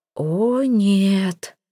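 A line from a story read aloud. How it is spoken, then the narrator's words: Suffering sigh, aunt. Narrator (Russian): страдальчески вздохнула тетушка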